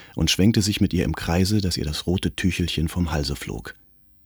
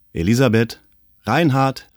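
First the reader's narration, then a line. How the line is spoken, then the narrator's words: Distant call. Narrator (German): rief es von der Gartenpforte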